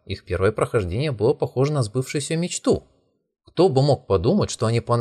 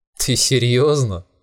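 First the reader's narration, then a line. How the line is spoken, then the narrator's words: Laughing. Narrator (Russian): засмеялся Юсю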